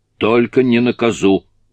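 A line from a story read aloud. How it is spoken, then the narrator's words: Shout. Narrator (Russian): крикнула Сюзи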